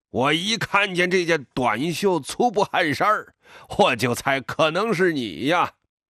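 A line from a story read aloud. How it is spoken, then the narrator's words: Grinning laugh. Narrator (Chinese): 张群咧嘴笑起来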